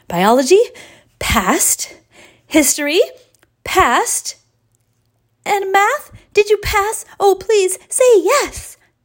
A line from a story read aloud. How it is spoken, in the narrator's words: shouted Ari